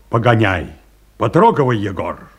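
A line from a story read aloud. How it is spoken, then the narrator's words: Curt, clipped. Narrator (Russian): сказал Павел Антонович отрывисто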